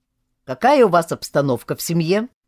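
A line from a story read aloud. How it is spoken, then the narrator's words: Stern question. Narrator (Russian): строго спрашивал капитан Васильев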